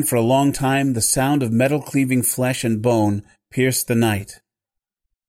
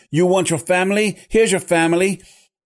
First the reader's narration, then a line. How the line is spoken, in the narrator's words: With each subsequent hack, he shouted